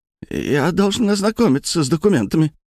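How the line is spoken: Squeaky. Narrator (Russian): пискнул

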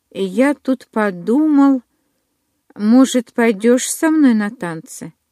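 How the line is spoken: Timid question. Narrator (Russian): робко спросил

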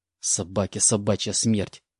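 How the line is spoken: Hissed. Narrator (Russian): прошипел я

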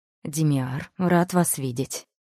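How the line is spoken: Restrained greeting. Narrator (Russian): сдержанным тоном приветствовал нас Виллиан

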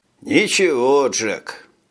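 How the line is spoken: Sighing pilot. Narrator (Russian): вздохнул летчик

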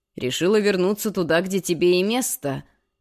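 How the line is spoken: Sarcastic snort. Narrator (Russian): язвительно хмыкнул

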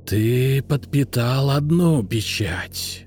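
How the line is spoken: Hiss. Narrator (Russian): прошипел он

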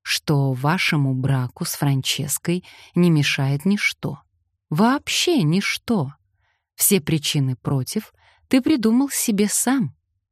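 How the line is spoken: Very soft, spine-chilling. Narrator (Russian): сказал Колин так мягко, что мурашки побежали по спине

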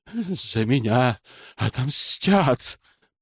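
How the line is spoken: Hissed. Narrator (Russian): прошипел маг

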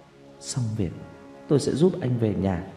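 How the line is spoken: Suppressed sobbing murmured promise. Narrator (Vietnamese): Tôi nức nở lên từng cơn không dứt, cố nén cơn thổn thức rồi lẩm bẩm, đồng thời hứa hẹn

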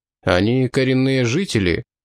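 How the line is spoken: Plain answer. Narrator (Russian): ответил глава Конгресса

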